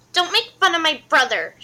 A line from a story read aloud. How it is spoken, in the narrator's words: she yelled angrily